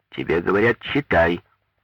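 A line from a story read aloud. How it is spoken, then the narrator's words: Menacing, wife repeating. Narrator (Russian): грозно повторила жена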